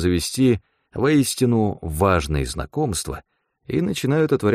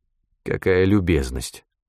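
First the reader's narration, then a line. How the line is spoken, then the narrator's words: Dry cough. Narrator (Russian): сухо кашлянул я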